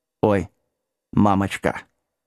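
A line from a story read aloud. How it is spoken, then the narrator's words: Quiet mumble. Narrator (Russian): тихо забормотал Вилкинс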